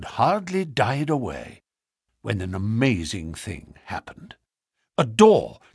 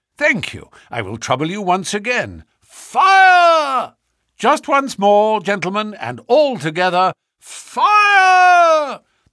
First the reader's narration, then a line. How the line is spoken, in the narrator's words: The shout must have rung over Norwood